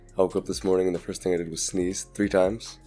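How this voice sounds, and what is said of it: Sick-sounding voice. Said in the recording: “You can probably hear in my voice. I'm sick.”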